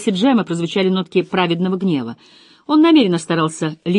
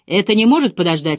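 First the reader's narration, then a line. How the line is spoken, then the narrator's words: Irritated question. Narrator (Russian): раздраженно спросил Джем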